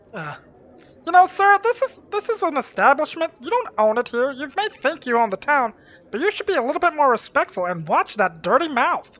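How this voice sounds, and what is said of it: Gnome-like character voice. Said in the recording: “talking like a gnome”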